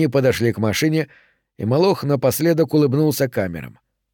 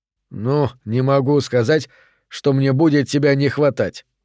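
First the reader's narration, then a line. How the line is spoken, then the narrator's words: Snort. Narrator (Russian): хмыкнул Торрес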